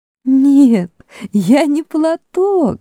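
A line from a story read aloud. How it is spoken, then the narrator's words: Said, then laughing. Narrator (Russian): сказала Люси и рассмеялась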